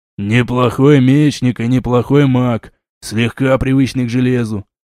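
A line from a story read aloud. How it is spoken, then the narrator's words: Grumbling. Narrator (Russian): проворчал Молчун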